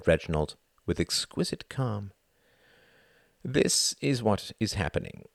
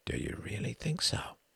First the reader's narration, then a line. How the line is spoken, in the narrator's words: He asked, his voice hushed